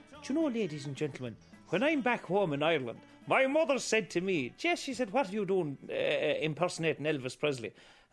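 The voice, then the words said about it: Exaggerated Irish accent. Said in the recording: “I would play up the Irish accent”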